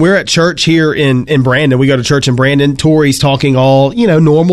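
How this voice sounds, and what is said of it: Usual voice. Nothing is said of it.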